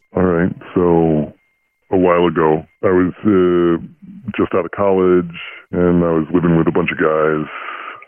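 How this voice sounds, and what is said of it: Electronically altered disguised voice. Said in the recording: “We're altering your voice with our voice changer.”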